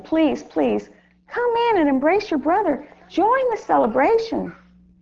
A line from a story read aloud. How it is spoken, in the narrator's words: his father came out and pleaded with him